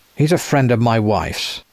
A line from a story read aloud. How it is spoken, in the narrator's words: he said coldly